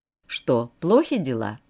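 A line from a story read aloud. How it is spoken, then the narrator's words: Plain. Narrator (Russian): спросил я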